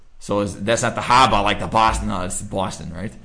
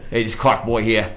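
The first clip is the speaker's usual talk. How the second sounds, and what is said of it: Put-on New York accent. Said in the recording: “your best New York accent? ... How's that for New York?”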